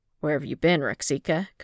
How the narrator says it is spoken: Cody scoffed

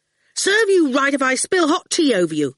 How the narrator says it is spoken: Howard said angrily

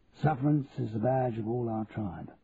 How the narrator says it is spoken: murmured Charlie

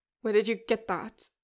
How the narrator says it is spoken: Ren snaps, his voice only slightly unstable as he begins to breathe heavily out of his nose

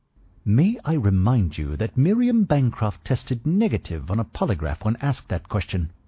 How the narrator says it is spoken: Prescott said sharply

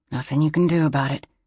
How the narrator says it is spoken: Bess murmured to him

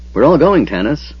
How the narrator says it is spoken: Flint said firmly

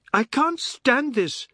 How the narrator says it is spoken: Savi cried

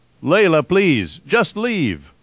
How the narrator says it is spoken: Peter shouted

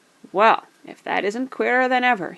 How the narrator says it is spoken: he exclaimed

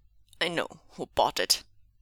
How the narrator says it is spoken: Meng Zhu growled, his lip curling in disgust

